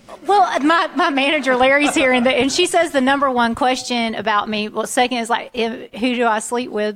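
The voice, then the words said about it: Genuine Southern US accent. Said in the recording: “a real voice from the South ... really, unique voice ... Southern accents ... is my accent real? Do I really speak like this?”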